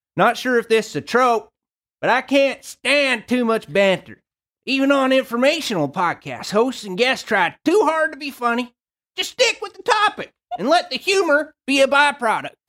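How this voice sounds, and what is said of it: Put-on Southern American accent. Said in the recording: “I'm going to do this one with maybe a Southern accent ... That was excellent.”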